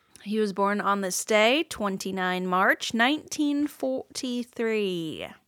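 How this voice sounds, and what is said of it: Put-on English accent. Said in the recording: “Judging by the way you said 29-3 and 1943, I'm thinking this was a British gentleman ... slipping into your English accent”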